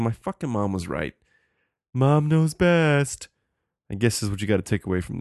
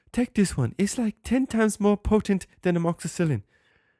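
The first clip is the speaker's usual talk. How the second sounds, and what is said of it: Slips into an English accent. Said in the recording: “why did my accent just change there? She's like, an English one.”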